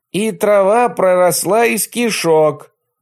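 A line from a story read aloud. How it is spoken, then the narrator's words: Girl yelling. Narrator (Russian): орала девочка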